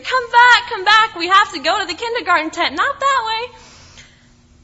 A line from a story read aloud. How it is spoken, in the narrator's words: chasing my little student down the hallway, screaming